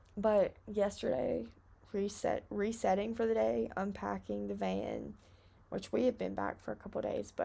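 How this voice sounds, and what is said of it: Hoarse, raspy voice with vocal fry. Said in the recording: “Do I have vocal fry right now? ... My throat hurts. I sound like I've smoked a whole pack of cigarettes 5 minutes ago.”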